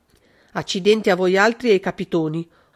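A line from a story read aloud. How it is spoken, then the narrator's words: Harsh muffled yell. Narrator (Italian): urlò con voce aspra il caporale Tafuri, cacciando la testa sotto le coperte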